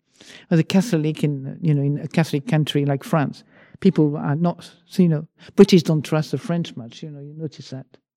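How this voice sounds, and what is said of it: French accent in English. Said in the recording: “I still have a French accent”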